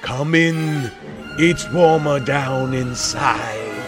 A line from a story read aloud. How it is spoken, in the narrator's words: their hoarse unison shout